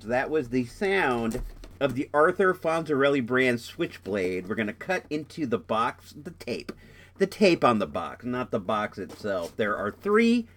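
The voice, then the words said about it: Congested, stuffed-up voice. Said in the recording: “I'm really stuffed up right now, so you might notice my voice sounds weird, and it does sound weird to me in my earphones.”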